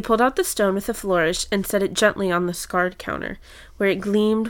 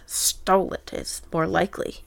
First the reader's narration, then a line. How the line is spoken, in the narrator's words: muttered Sloane